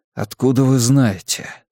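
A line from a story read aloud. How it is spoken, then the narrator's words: Quiet question, echoing. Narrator (Russian): спросил я тихо, но акустика в этом подземном ангаре такая, что мой голос услышали даже те, кто возился с машинами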